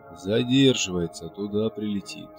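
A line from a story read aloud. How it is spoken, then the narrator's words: Hoarse voice on phone. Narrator (Russian): Хриплый голос говорил по телефону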